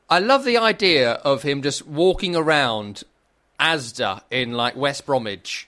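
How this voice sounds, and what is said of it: Usual voice. Nothing is said of it.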